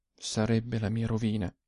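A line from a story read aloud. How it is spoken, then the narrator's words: Said softly. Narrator (Italian): disse piano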